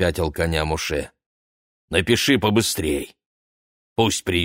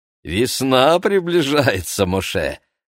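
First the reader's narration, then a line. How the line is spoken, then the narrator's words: Laughing. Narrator (Russian): засмеялся Менахем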